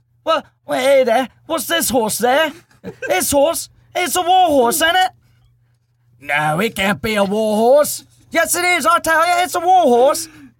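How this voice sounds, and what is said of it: Impression of movie characters' voices. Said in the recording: “do my impression ... I used to do an impression of Warhorse, not of the character, but of the movie.”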